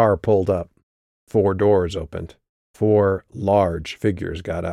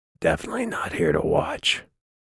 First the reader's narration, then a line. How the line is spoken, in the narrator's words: Ficus whispered